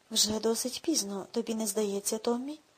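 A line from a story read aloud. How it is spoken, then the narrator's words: Low-voiced question. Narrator (Ukrainian): спитав дядько Гарольд низьким голосом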